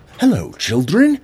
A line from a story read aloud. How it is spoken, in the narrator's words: exclaimed Grandpa